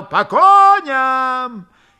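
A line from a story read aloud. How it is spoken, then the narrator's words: Loud yell over voices. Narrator (Russian): Покрывая все голоса, Фомин заорал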